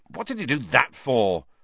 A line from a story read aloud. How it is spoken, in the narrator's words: said Harry, furiously